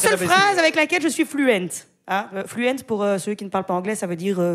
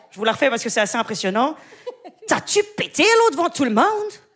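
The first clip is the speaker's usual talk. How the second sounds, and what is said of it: Put-on Québécois French accent. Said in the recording (French): “C'est un accent d'AVC. ... c'est l'accent québécois.”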